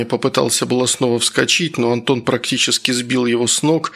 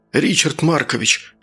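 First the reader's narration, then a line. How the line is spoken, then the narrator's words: Excited whisper. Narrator (Russian): Возбужденно зашептал Саня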